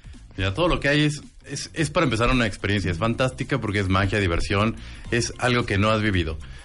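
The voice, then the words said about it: Good radio announcer voice. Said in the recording (Spanish): “¿Tiene voz de locutor? ... ¿Tiene voz de locutor? ... qué buena voz”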